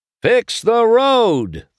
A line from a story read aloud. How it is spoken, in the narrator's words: the cars shouted, rallying